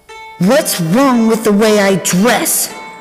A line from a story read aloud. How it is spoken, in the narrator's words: Her shout echoed